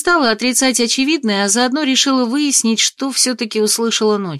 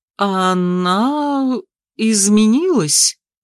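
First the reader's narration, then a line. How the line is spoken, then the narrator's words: Uncertain reply. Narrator (Russian): Неуверенно ответил ректор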